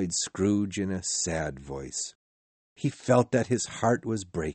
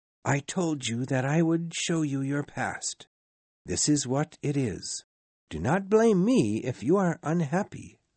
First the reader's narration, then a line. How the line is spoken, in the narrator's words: said the ghost